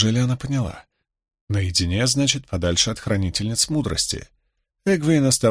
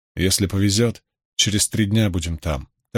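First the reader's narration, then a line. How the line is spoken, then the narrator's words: Plain. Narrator (Russian): так сказал Люка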